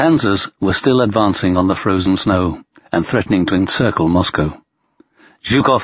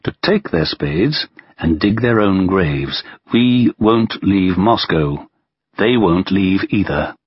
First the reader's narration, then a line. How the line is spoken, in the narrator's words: replied Stalin calmly